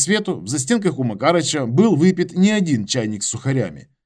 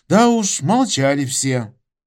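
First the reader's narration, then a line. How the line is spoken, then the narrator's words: Sigh. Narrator (Russian): вздохнул Макарыч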